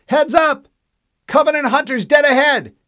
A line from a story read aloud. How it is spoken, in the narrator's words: Fred hit the comm and yelled